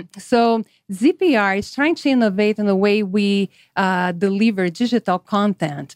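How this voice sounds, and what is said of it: Slight Brazilian Portuguese accent. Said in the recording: “I have some accent because I'm originally from Brazil”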